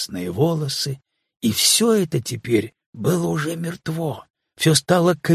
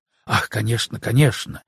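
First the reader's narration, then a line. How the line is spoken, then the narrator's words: Whispered mutter. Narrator (Russian): шепотом пробормотал граф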